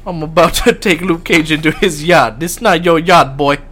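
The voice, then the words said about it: Put-on Jamaican accent. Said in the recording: “with the Jamaican accent, man ... it's all the Jamaican accents”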